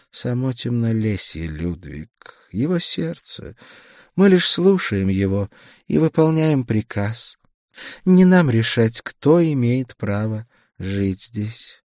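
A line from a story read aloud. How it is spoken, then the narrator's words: Gentle smiling reply. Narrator (Russian): Она мягко улыбнулась, ответив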